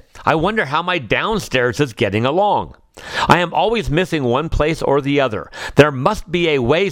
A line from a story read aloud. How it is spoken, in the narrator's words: said Owl